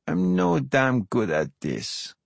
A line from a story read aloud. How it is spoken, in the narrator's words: she says slowly, almost shyly